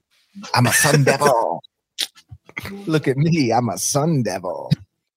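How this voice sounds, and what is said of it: Impression of a sun devil. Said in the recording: “impersonation of a sun devil”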